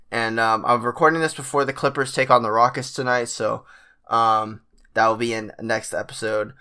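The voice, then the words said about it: Sick, sniffly, slightly off voice. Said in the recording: “I am feeling myself getting kind of sick, so I'm a little bit under the weather... apologize for my voice and any, like, sniffling... my voice sounds a little bit off... I'm coughing a little bit as well”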